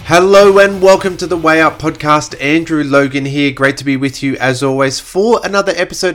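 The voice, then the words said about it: Slightly nasal, congested voice. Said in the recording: “you may hear it in my voice, I am still a little bit nasally ... a little cold and flu”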